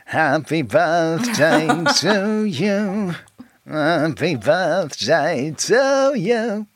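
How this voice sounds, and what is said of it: Poor impression of singing. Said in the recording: “That's not a very good impression of him singing happy birthday.”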